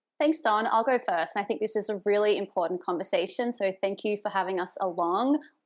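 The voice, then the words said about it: Australian accent. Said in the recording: “I'm an Australian expat living in NYC, in case my accent didn't give me away.”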